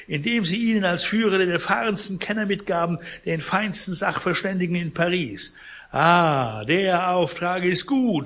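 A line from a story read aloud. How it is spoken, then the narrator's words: Indignant call. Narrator (German): rief Pons empört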